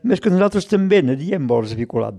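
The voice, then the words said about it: Put-on Ebre Catalan accent. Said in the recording (Catalan): “amb aquell accent de l'Ebre allà, aquell accent”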